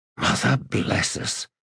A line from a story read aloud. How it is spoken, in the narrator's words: Skintik whispered